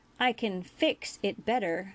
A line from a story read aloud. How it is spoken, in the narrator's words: Julian replied in his stern voice